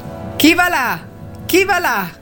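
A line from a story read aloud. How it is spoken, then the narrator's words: Repeated shout. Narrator (Italian): gridò per la terza volta la sentinella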